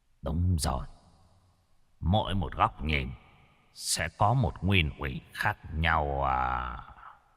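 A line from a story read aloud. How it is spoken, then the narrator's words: Thoughtful muttering. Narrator (Vietnamese): Triệu Lại dường như đang suy nghĩ điều gì, lẩm bẩm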